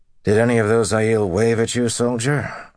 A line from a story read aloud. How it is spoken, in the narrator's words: Rand asked dryly